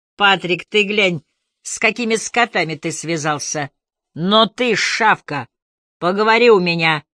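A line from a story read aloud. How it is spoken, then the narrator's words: Sharp rebuke. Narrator (Russian): прикрикнул Бруссард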